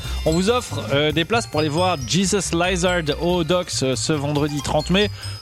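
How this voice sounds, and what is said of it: Put-on accent. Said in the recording (French): “Pourquoi je parle avec cette accent merde? Je ne sais pas.”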